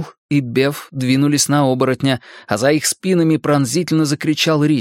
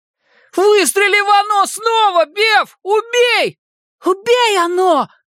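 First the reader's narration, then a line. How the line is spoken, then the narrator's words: Shouted. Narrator (Russian): крикнул Майк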